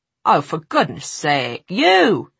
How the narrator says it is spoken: he snapped

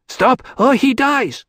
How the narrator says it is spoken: she shouted

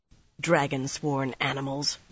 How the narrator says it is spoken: Mirella muttered

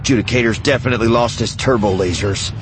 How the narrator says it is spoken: Vanto said grimly

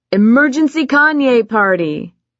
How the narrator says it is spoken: shout

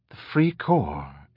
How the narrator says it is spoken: Ander murmured to himself

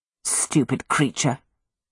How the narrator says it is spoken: Petra muttered

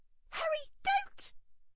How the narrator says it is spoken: shrieked Hermione

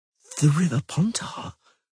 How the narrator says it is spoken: whispered Yara

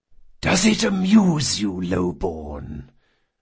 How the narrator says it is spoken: the Don asked in a serpentine whisper

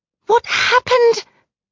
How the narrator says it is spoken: she rounds on me, her voice two octaves higher than usual

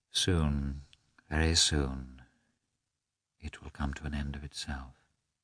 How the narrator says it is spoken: she muttered

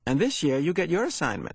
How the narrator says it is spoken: she said to Jonas in an excited voice

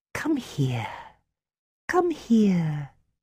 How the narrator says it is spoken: she said in a syrupy voice she used with very small children

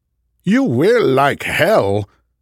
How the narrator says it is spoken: Snidely exclaimed

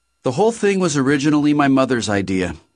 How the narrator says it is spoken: she said

